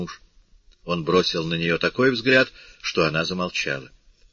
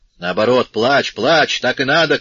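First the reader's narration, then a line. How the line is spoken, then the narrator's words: Shouted. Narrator (Russian): крикнул отец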